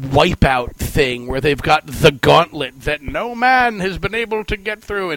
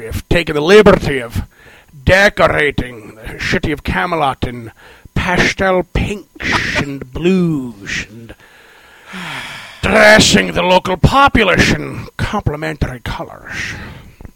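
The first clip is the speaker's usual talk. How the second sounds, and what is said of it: Put-on Scottish accent. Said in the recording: “Please excuse the Scottish accent”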